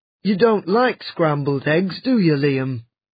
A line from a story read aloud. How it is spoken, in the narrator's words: Jim asked